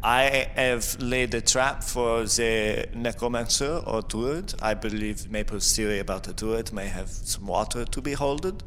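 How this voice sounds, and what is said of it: Put-on German-like accent. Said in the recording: “You almost sound German when you're sleepy.”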